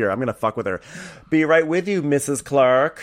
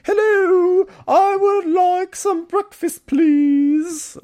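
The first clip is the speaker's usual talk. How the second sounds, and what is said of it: Put-on British accent, Julie Andrews-like. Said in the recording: “she turns full Julie Andrews ... trying to do a British accent”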